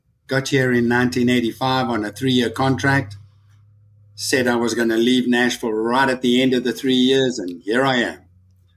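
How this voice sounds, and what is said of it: South African accent, slightly Americanized. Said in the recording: “our listeners are going to immediately recognize your accent ... I'm from South Africa originally ... my friends in South Africa accuse me of having an American accent”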